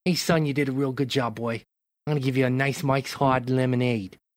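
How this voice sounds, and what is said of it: Put-on New York or Boston accent. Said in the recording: “Where did that accent come from? That's the, the second time it's made appearance ... That's the accent like he uses though ... he's like a New Yorker ... More Boston than New York”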